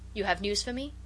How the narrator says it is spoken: he said

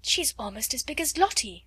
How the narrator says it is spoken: gasped

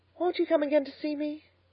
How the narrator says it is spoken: pleaded Miss Lavendar

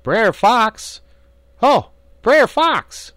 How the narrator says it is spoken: Brer Rabbit holler out

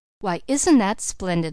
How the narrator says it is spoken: laughed the Bird Woman

